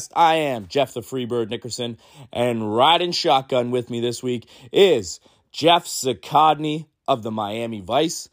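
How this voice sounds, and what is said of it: Sick-sounding voice. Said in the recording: “As you can hear by my voice, I am doing this one like Jordan's flu game. This is the birds with strep throat”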